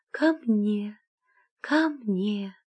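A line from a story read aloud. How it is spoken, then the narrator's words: Tender calling voice. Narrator (Russian): фея стала звать нежным голосом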